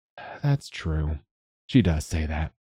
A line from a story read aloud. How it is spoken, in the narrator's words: he said gently